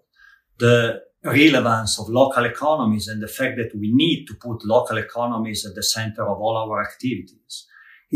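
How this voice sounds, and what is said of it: Italian accent. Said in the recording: “That charming Italian accent”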